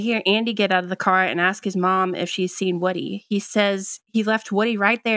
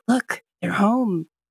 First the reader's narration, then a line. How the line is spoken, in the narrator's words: Rex gasps, whispers